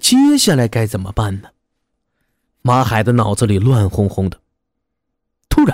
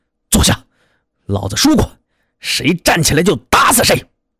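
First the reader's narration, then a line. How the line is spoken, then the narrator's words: Angry roar. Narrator (Chinese): 他是一声怒吼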